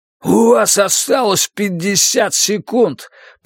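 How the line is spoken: Hoarse rasp. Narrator (Russian): прохрипел наемник

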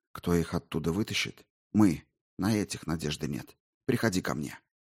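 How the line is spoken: Whisper. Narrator (Russian): шепнул

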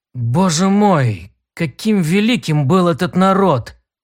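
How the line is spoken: Breathed out. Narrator (Russian): Наконец выдохнул Тарн

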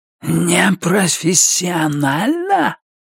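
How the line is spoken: Hiss. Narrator (Russian): прошипел он

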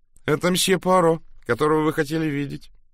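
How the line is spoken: High cheerful tone. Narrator (Russian): доложила сестра Капстик своим высоким жизнерадостным тоном

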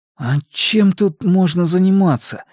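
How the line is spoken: Forced out with effort. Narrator (Russian): сумел выдавить Макс

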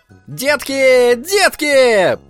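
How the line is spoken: Shouting. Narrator (Russian): прокричал человек на велосипеде

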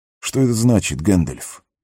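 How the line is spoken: Plain. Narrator (Russian): спросил Арагорн

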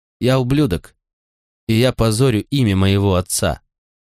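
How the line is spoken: Calm. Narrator (Russian): спокойно сказал я

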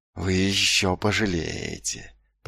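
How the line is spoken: Hissed. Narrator (Russian): прошипел он

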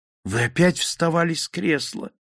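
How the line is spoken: Exclaiming. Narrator (Russian): воскликнула она

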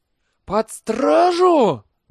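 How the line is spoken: Howled in animal terror. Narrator (Russian): взвыл Либич в каком-то животном ужасе

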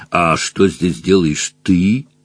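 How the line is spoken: Grim dragon question. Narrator (Russian): мрачно спросил дракон

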